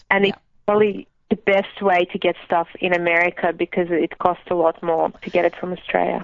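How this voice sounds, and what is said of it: Lovely accent. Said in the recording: “you have a lovely accent.”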